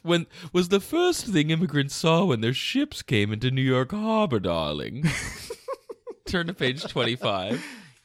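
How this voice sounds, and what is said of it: Goofy affected reading voice. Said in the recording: “doing this goofy voice. I really like it because, like, darling is implied after every sentence.”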